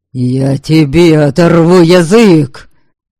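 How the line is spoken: Barked. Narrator (Russian): Рявкнул Лахья

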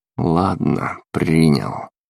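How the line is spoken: Muttered. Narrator (Russian): пробормотал я

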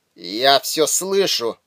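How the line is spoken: Drowsy mumble. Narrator (Russian): пробормотал сквозь дрема Харнак

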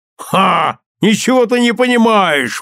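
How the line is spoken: Father exclaiming. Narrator (Russian): воскликнул отец

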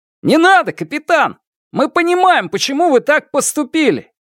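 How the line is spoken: Shout from the hall. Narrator (Russian): Кто-то крикнул из зала

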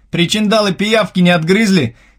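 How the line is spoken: Shouting after someone. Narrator (Russian): кричал мне вслед Андрей

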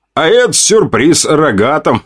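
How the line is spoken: Chuckling. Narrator (Russian): Хохотнул я

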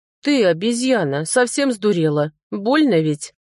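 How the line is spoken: Growling. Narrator (Russian): прорычал я

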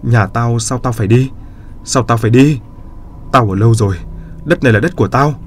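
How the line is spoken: Wailing, crying out. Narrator (Vietnamese): Hai bà đó khóc vật ra la lên

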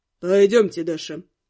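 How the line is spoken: Gloomy, curt. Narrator (Russian): мрачно бросил он

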